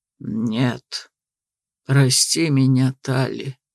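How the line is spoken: Resigned exhale. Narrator (Russian): выдохнул он обреченно

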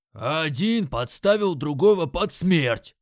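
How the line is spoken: Very loud bark. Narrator (Russian): Рявкнул справа от меня так громко, что я аж подпрыгнул

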